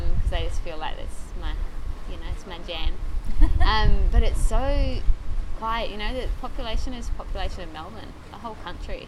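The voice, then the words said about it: New Zealand accent with Australian tinge. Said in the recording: “I don't know if anybody picked up ... accent. ... I'm from New Zealand ... I sound Australian ... I think it's a bit of a hybrid now.”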